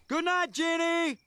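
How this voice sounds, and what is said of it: Screaming loudly. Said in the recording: “Why are you screaming at me when I'm lying right next to you?”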